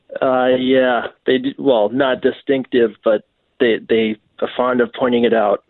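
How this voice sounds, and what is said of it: Distinctive Welsh accent. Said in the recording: “Are you Welsh? ... Anyway, you do have a distinctive accent, you know.”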